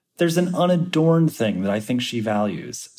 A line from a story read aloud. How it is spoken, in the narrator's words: says Osnos